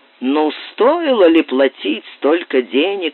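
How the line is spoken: Grumbling. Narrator (Russian): ворчал он

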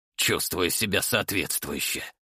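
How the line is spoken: Grumbled. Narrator (Russian): буркнул

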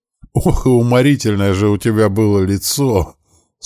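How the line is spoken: Telling through laughter. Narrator (Russian): сквозь смех рассказывала матушка

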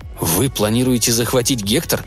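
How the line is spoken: Mumbled. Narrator (Russian): пробормотал он

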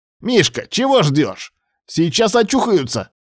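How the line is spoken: Shout from behind. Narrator (Russian): крикнул позади Кривоногов

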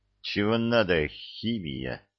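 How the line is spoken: Worried old men hissing. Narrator (Russian): зашипели обеспокоенные местные дедушки

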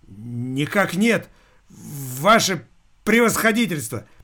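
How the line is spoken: Forced out reluctantly. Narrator (Russian): наконец выдавил из себя Виталик

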